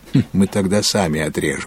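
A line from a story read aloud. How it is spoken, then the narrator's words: Laughing. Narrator (Russian): засмеялся Филипп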